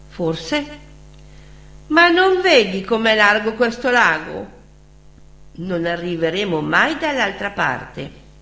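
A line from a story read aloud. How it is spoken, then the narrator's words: Sigh. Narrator (Italian): Loretta sospirò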